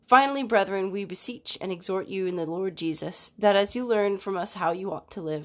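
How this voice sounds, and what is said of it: Wonky, cold-affected voice. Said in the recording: “my voice is a little wonky today. My son brought home a cold from preschool ... my voice sounds wonky”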